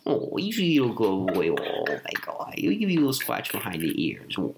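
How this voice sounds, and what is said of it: Cooing baby voice for dogs. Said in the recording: “do the little baby voice for dogs”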